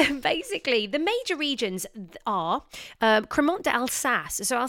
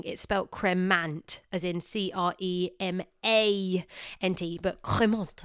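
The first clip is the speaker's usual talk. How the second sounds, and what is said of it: Put-on French accent pronunciation. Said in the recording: “I hope you like my French accent there. I've been practicing very, very hard.”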